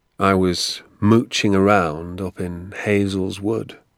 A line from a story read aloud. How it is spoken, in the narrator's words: he said slowly